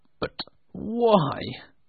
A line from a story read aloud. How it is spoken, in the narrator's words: asked Scrooge nervously